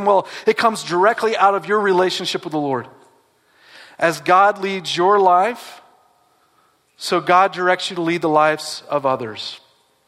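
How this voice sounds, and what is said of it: Southern US accent. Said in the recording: “I have an accent. Probably you've noticed, right? I grew up where they drink sweet tea.”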